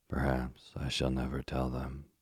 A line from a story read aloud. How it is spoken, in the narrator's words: said Miss Waterlow sadly